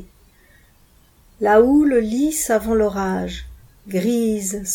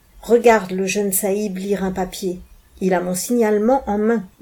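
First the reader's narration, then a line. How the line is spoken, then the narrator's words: Plain. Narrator (French): dit E23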